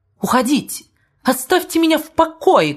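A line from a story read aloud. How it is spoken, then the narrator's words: Sharp shout. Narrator (Russian): крикнул он весьма резким тоном, до сих пор совершенно не свойственным ему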